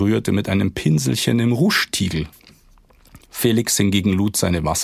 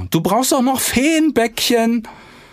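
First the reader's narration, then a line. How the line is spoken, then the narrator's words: Calling out. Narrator (German): rief Clara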